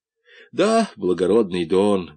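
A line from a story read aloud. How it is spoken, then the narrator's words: Sad reply. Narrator (Russian): грустно ответил Румата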